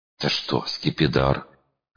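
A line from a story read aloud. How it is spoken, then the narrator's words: Hoarse question. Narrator (Russian): хрипло спросила Лата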